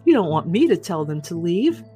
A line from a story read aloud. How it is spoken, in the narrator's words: I laughed and said